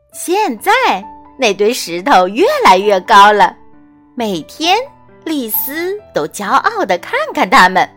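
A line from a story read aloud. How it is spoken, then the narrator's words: Laughing. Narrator (Chinese): 富斯笑着说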